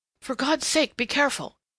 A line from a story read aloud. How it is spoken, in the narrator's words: he gasped